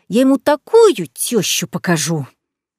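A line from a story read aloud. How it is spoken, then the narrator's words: Mother's menacing growl. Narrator (Russian): Грозно рыкнула мамуля, как самый настоящий оборотень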